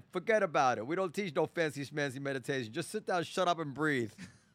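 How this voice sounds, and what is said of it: Thick put-on Brooklyn accent. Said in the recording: “with a Brooklyn accent ... with a thick accent”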